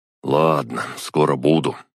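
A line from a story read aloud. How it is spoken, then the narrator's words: Sighing. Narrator (Russian): вздохнул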